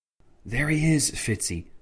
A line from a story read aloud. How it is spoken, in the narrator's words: whispered Alistair Tancred